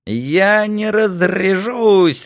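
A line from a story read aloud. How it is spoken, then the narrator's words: Joyful yell. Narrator (Russian): радостно завопил Барматунчик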